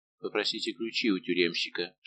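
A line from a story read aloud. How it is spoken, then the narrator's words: Whispered. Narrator (Russian): шепнул свою спутнику Арамис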